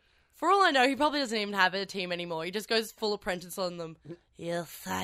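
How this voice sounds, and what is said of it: Usual voice. Nothing is said of it.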